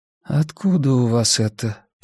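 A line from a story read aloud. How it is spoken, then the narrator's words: Muttered. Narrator (Russian): пробормотала Хелена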